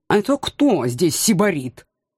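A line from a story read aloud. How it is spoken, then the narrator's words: Indignant cat. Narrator (Russian): чутко отреагировал кот возмущенным тоном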